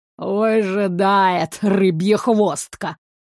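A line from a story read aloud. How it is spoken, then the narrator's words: Grumbling king. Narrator (Russian): проворчал огненный король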